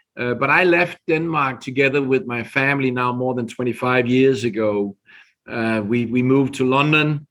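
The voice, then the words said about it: Danish accent in English. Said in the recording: “I'm originally from Denmark. So you can hear on my accent that I'm not here from US.”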